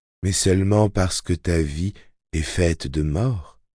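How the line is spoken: Murmuring voice from tower. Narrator (French): murmura la voix de la tour

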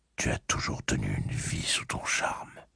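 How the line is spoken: Murmuring. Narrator (French): murmura-t-il

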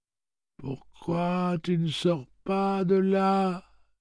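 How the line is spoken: Moaning. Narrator (French): gémissait-elle

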